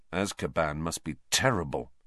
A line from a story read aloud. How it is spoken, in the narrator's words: Harry muttered